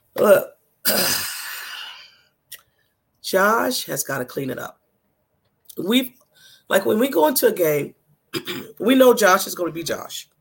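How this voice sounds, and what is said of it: Hoarse, nearly lost voice. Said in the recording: “My voice is gone”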